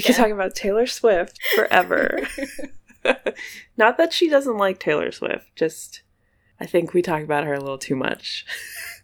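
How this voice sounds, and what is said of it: Congested voice from a cold. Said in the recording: “my voice is a little weird today, it's because I have a cold ... I'm trying not to cough”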